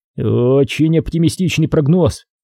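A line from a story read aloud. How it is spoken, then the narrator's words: Skeptical snort. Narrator (Russian): хмыкнул Доронин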